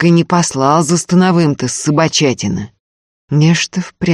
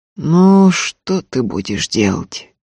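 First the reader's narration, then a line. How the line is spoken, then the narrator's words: Grumbling. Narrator (Russian): проворчал Антип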